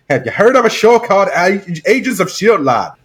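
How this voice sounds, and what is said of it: Terrible put-on accent. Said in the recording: “Terrible accent.”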